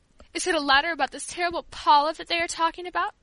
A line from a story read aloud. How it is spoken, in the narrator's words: between her sobs, she remarked